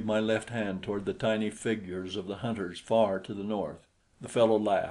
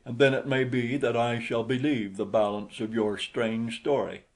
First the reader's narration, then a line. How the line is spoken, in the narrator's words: he cried derisively